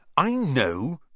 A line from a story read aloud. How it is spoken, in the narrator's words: Ron snapped